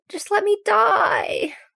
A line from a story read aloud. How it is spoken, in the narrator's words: the woman with the sores whimpers to no one